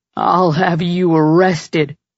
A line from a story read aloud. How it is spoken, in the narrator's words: Trigger growled